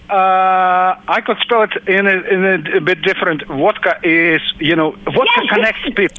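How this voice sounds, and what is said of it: Russian accent. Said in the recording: “I love your accent ... I love the Russian accent when people say vodka as vodka”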